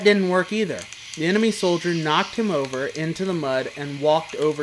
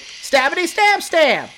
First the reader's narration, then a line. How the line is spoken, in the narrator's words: he shouted